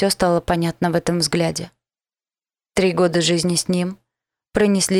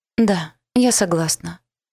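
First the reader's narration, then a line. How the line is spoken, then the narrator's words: Sad. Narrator (Russian): грустно сказала Лиза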